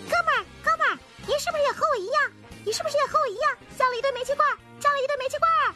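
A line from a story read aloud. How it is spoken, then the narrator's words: Trapped parrot shouting. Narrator (Chinese): 鹦鹉动弹不得，大喊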